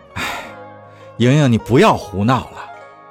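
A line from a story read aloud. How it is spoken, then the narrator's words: Sighing, weary. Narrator (Chinese): 叶禅叹口气说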